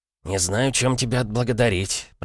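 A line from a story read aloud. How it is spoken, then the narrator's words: Mumbled. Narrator (Russian): пробурчал Евлампий Калистратович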